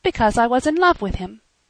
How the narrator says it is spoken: she said firmly

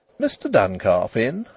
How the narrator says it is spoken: asked the young woman brightly

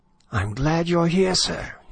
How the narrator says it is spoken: he exclaimed breathlessly

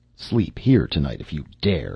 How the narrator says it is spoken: she growled

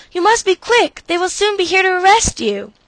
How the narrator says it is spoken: she exclaimed

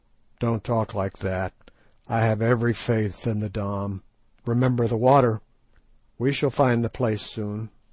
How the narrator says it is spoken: groaned Sir Henry

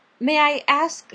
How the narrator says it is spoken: she faltered out

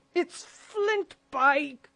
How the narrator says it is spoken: cried Mary

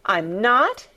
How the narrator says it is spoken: he cried

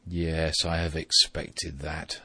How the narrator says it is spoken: said his father

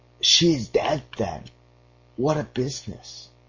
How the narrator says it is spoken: the turner cried

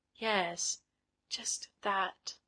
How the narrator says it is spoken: And did Miss Fulton murmur

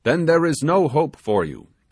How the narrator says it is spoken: exclaimed the sailor

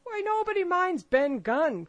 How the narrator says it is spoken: cried Mary

